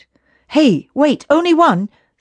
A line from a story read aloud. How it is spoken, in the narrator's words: snapped Davy